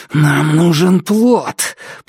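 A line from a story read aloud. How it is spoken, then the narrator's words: Growling. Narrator (Russian): прорычал Дайн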